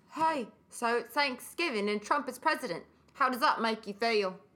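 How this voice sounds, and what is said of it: Put-on Australian accent. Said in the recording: “your Australian one”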